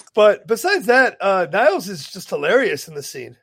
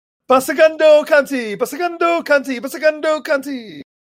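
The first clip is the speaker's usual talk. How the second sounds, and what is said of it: Chanty put-on character accent. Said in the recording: “What is this accent you're doing? ... Getting real chanty. ... That's my Niles voice.”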